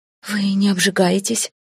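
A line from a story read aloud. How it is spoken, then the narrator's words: Breathless, astonished. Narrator (Russian): выдохнула я, потрясенная очередным открытием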